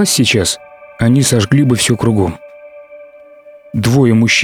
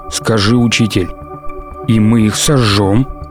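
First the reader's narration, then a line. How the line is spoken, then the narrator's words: Growled in chorus. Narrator (Russian): Хором зарычали они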